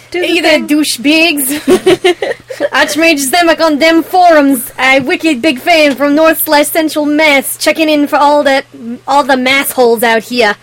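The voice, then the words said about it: Put-on heavy Boston accent. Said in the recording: “Heavy Boston accent... That was pretty good... I was buying it, and I didn't understand a fucking word you said.”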